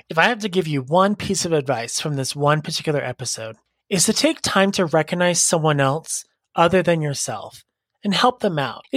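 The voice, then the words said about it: Raspy voice. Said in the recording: “my voice is a little raspy, it's been raspy all day”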